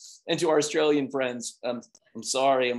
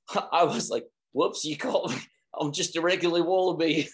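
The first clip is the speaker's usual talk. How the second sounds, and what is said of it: Bad put-on Australian accent. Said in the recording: “back to the Australian thing ... I'm working on my accent. ... That is so bad.”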